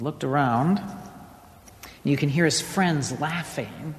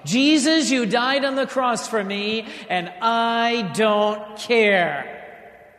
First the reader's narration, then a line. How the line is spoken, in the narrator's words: he shouts at the top of his lungs